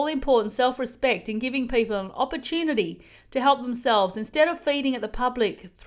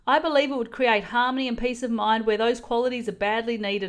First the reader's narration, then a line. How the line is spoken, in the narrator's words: I said